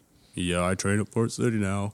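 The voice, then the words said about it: Gloomy Eeyore-like impression of someone. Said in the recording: “Like Eeyore. He does a good... That was a good impression”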